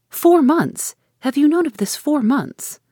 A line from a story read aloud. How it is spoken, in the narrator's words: After a pause of wonder, she exclaimed